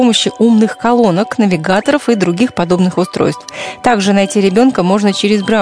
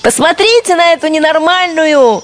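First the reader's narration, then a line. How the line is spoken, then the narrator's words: Cheerful shouting by companions. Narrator (Russian): весело кричали ей товарки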